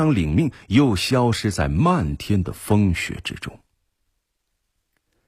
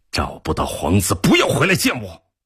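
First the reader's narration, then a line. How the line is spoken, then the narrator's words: Low growl. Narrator (Chinese): 伯彦低吼道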